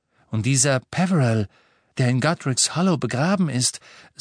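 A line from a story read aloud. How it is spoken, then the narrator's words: Hasty, deliberately sober voice. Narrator (German): sagte er hastig und mit möglichst nüchterner Stimme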